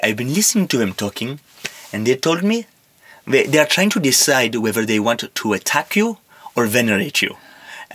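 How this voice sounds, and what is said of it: Put-on foreign accent. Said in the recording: “That's a pretty good accent.”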